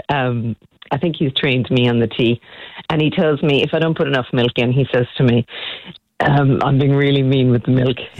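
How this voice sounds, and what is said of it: Irish accent. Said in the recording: “we've loved hearing this beautiful Irish accent”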